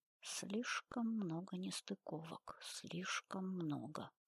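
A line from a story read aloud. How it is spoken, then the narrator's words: Muttering. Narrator (Russian): бормотал Филиппов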